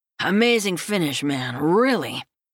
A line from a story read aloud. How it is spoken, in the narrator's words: Stevens slurs as he grins